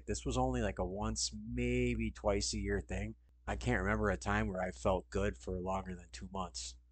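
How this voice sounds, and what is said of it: Nasal, congested voice. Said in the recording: “my grating Wisconsin accent is a bit more nasally. So you can see I'm still kind of stuffed.”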